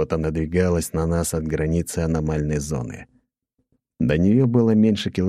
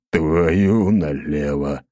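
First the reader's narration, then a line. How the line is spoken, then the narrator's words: Exhaled exclamation. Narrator (Russian): выдохнул Ротай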